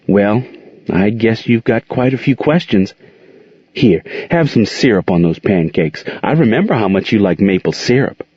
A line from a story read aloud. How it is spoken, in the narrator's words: Monique smiled nervously and admitted to Gerald